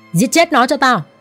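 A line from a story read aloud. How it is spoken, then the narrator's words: Loud shouted order. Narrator (Vietnamese): tên mặt sẹo chỉ tay về phía A Hắc, hắn quát lớn ra lệnh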